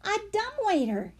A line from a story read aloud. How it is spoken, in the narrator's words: Henry exclaimed